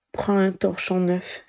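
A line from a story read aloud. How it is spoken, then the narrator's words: Choked suggestion. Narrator (French): suggéra Ginny d'une voix étranglée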